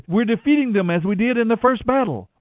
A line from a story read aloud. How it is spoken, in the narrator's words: they shouted